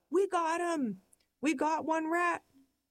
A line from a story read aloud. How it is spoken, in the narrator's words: We're hyperventilating, we yell